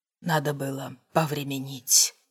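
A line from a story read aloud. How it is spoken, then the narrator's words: Muttered. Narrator (Russian): пробормотал он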